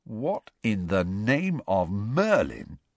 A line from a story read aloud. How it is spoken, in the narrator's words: said Ron slowly